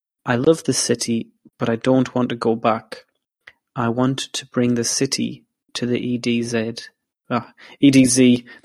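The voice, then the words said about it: Put-on English accent. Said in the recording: “That was my English accent coming out there.”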